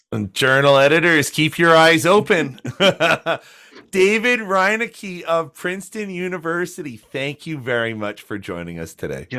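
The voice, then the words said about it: Polished radio-announcer voice. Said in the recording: “your radio voice, excellent ... your voice, like I can listen to it all day”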